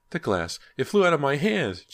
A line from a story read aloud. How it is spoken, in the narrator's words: Ginny screamed